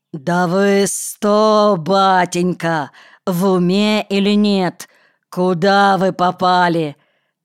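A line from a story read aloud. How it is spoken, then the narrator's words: Growled. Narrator (Russian): Зарычал опять Канкевич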